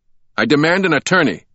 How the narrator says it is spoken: shouted

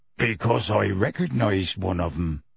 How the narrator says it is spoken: Hagrid growled

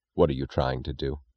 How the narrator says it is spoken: Reardon asked, his voice low with a sound which was almost a threat

